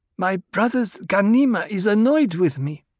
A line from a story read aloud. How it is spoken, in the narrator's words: Alia said in her half-lisp